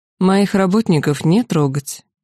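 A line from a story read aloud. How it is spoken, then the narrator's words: Dry. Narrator (Russian): сухо произнесла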